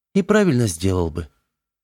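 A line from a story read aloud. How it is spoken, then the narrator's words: Sighing. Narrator (Russian): вздохнул Сергей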